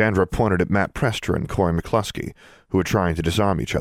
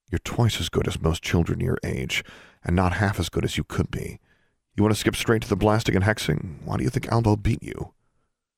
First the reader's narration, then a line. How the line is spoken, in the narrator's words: In a quieter voice, said